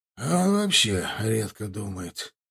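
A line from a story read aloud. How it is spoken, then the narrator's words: Exhaled with smoke. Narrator (Russian): выдохнул облачко дыма Милар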